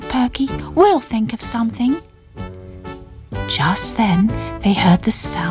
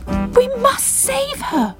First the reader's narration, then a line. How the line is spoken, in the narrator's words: cried Bubble